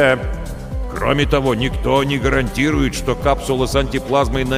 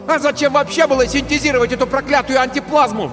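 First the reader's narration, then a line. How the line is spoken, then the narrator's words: Sudden yell. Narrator (Russian): вдруг заорал Тиберий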